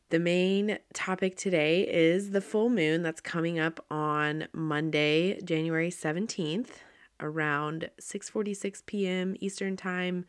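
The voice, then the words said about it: Congested, stuffy-nosed voice. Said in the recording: “I sound like I have a cold or a stuffy nose, because I do.”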